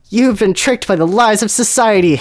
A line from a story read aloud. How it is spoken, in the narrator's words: Harry shrieked knowingly